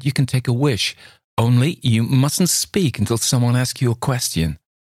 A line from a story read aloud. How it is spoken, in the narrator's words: she cried